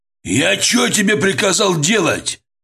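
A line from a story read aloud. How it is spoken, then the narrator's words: Yelled, losing self-control. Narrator (Russian): заорал он, забыв, что в присутствии Брежнева стоит держать себя в руках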